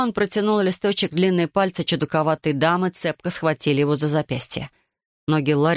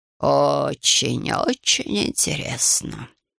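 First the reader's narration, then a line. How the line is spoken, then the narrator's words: Muttering. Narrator (Russian): пробормотала гадалка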